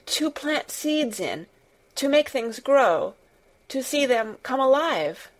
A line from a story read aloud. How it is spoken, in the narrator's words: Mary faltered